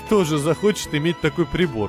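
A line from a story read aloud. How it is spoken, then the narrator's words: Laughing. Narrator (Russian): рассмеялся Штейн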